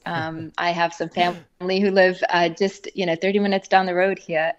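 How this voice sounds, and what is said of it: South African accent shifted toward American. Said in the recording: “The accent has definitely morphed into an American accent.”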